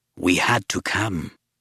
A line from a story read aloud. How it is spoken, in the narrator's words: Tessar rasped